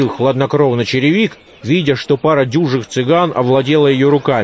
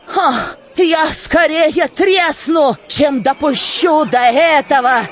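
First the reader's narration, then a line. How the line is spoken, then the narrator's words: Shouted. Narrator (Russian): кричала сожительница Солопия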